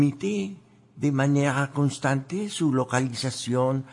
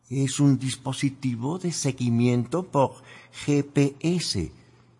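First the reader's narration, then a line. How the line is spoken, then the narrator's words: Plain reply. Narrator (Spanish): respondió Sophie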